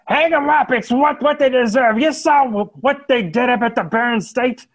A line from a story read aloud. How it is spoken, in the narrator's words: there's some shouts